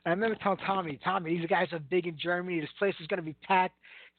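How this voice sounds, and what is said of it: Heavy Brooklyn accent. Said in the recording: “my heavy Brooklyn accent”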